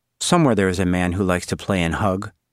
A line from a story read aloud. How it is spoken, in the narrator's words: Suzanne said